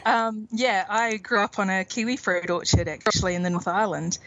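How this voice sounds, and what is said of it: New Zealand accent. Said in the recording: “I can hear your accent there, and it's from New Zealand.”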